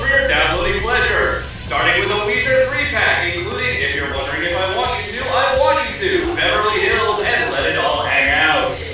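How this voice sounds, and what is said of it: Exaggerated radio announcer voice. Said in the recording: “That was a tremendous uh, radio announcer voice.”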